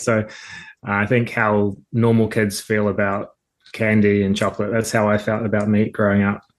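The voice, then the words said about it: New Zealand accent. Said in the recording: “I'm from New Zealand originally, in case anyone picks up on the accent”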